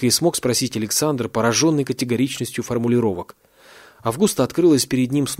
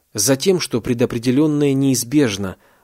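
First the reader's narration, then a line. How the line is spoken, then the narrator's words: Plain. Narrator (Russian): ответила Августа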